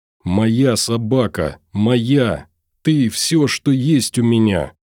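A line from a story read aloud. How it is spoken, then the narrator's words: Choked hoarse rasping. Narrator (Russian): Хрипела, давясь словами, выскакивающими из сдавленного горла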